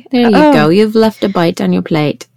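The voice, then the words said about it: Put-on British accent. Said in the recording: “Again, with whatever accent. ... it makes me go like British.”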